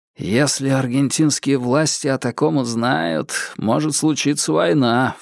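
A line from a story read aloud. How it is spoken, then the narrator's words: Low-voiced remark. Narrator (Russian): вполголоса заметил Бонфилд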